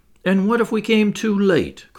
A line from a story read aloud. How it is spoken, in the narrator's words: cried Maston in tones of despair